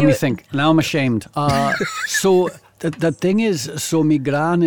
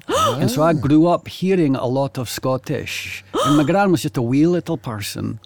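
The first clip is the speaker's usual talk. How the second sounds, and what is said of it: Put-on Scottish accent, convincing. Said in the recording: “Oh, it's that's really... Good... Scottish accent... That's really good.”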